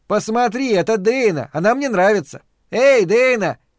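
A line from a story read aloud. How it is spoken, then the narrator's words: Shout. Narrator (Russian): закричал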